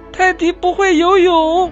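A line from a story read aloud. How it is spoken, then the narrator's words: Anxious shout. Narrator (Chinese): 鸭宝贝焦急的喊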